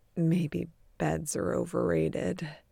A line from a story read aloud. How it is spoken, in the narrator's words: muttering